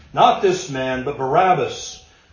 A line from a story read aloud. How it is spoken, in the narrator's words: all cried out, saying